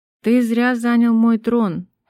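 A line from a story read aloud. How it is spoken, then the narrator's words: Plain. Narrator (Russian): ответила Миранда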